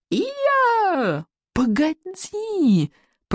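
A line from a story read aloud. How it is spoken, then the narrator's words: Hurried hiss while climbing. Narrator (Russian): прошипел Икинг, торопливо карабкая следом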